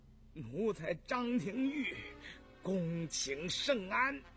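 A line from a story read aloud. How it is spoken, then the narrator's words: Trembling voice. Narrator (Chinese): 张廷玉颤声说道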